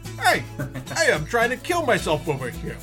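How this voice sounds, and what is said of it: New York Guido character voice. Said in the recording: “New York City Guido voice”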